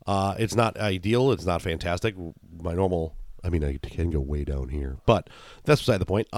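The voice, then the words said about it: Raspy, hoarse voice. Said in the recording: “I'm a little raspy ... remnants of the Bills game yesterday from yelling ... I apologize for my voice”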